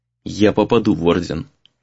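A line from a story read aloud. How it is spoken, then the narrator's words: Quiet, to himself. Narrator (Russian): тихо сказал Рэй сам себе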